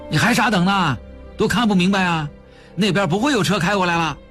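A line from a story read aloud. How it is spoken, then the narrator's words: Passerby shouting. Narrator (Chinese): 从他们眼前经过的一个人喊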